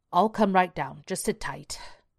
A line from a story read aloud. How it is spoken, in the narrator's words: Alan growled